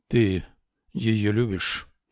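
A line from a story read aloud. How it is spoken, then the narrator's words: Muffled question. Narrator (Russian): глухо спросил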